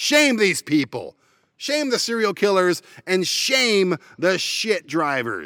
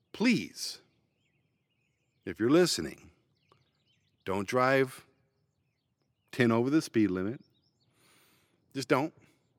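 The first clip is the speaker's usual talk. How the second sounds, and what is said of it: Calm, lowered voice. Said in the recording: “Let me put it calmly for you. Let me lower my tone, lower my voice”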